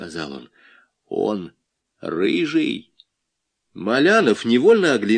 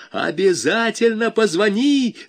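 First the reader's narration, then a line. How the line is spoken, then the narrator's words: Yelling. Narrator (Russian): заорал Валька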